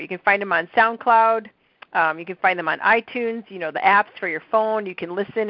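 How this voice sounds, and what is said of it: Soothing nasal Midwestern accent. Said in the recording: “my lovely, soothing voice ... my Midwestern nasal accent.”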